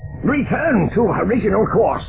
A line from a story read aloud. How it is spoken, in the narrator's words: Zinge shouted